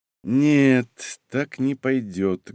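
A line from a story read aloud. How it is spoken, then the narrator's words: Sad. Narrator (Russian): грустно сказал он мне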